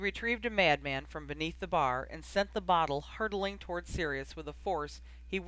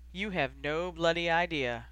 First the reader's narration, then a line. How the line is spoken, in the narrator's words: Ron sighed